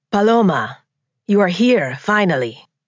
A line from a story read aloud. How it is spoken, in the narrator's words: Juan said with a pronounced accent